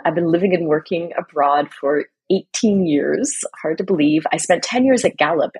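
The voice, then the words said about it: American accent. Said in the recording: “If you can tell from my accent, I am American.”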